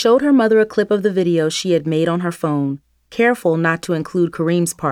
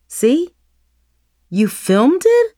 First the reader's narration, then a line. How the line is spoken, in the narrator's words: exclaimed